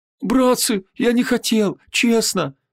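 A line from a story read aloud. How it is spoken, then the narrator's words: Babbling. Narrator (Russian): залепетал Витангез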